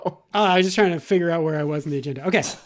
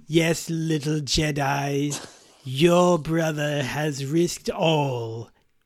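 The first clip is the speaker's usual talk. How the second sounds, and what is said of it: Palpatine impression. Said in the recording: “do my Palpatine voice”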